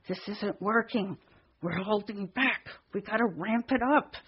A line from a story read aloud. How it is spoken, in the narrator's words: I simultaneously muttered to Dan